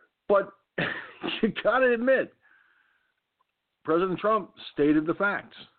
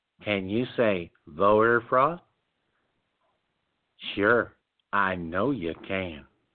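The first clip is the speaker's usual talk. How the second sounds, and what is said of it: Cheesy imitation of another person's voice. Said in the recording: “My cheesy Fred Rogers imitation.”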